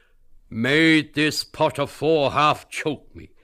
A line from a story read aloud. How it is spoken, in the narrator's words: cried Costello